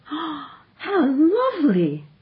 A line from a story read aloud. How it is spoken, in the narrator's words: she cried